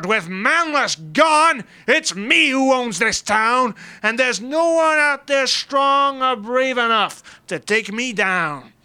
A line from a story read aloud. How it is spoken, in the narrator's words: Big Boy roared